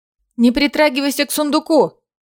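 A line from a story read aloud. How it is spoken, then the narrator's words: Shouted. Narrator (Russian): крикнула ей Айлина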